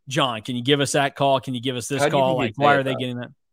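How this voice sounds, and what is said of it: Impression of Bruce Weber. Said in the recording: “great Bruce Weber impersonation”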